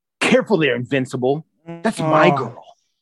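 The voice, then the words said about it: Impression of Jason Mantzoukas. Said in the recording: “that Mantzoukas ... how good your impression is of that”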